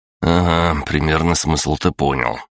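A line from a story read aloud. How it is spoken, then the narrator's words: Wry grunt. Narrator (Russian): я хмыкнул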